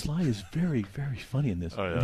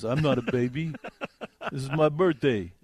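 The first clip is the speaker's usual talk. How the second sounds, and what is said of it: Imitates another person's voice. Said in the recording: “Was that your Liam Neeson imitation? ... No, it's my Sylvester Stallone.”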